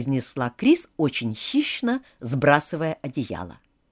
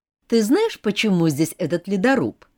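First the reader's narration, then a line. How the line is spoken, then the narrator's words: Plain. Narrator (Russian): спросила Крис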